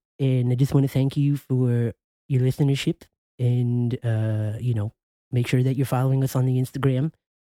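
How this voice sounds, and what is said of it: Comic character voice with lisp. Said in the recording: “I don't know what voice this is that I'm doing. ... It's the cable guy. ... I had the lisp.”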